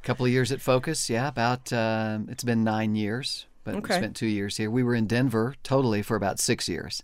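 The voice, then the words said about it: Full Arkansas accent. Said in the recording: “You were involved with the Arkansas Family Policy Council ... you did not lose the accent ... now it's all the way back”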